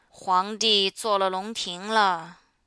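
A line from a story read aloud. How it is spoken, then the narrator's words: Sighing. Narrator (Chinese): 七金叹一口气说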